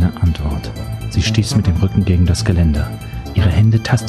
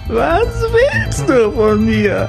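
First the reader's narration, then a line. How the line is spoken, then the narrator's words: Screaming. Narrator (German): schrie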